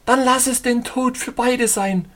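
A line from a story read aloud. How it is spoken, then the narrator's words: Shouting. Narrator (German): rief sie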